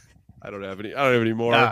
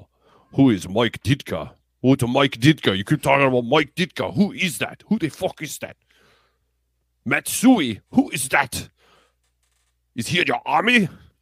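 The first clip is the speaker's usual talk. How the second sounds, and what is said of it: Put-on accent of unclear origin. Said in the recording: “I don't even know what accent that is.”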